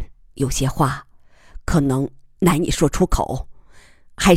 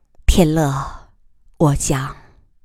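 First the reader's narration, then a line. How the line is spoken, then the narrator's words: Sighing. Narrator (Chinese): 他叹息一声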